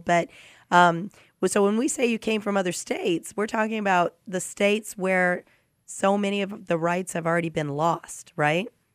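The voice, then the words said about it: Slightly rough voice. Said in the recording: “my voice is a little rough today because I've got a cold”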